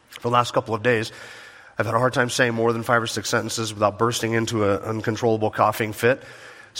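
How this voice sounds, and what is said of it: Weak, sick-sounding voice. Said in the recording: “my voice is a little weak this morning ... it sounds as if I'm preaching with a cough drop in my mouth”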